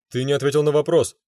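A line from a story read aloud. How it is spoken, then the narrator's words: Barked. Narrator (Russian): рявкнул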